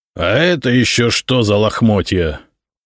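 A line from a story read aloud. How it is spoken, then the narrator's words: Icy, through teeth. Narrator (Russian): ледяным тоном процедил он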